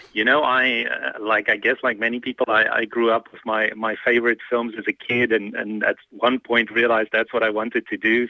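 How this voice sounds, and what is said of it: Slight South African accent. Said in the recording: “you're gonna hear the accent. It almost sounds like Ernie Els... my slightly South African accent”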